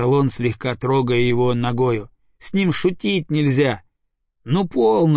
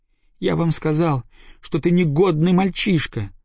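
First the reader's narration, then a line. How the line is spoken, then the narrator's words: Spiteful, angry. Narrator (Russian): злобно выговорил Иленька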